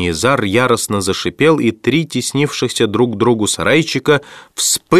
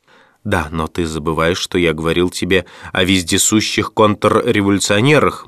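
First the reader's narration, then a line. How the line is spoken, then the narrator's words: Gloomy. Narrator (Russian): мрачно проговорил Джон Том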